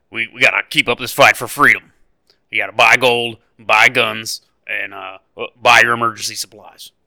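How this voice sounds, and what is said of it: Imitates another person's voice. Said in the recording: “my Alex Jones impersonation”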